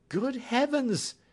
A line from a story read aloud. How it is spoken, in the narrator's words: cried my patient